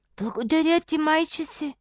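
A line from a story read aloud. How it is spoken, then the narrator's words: Grateful whisper. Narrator (Bulgarian): прошепна то, затоплено от сълзата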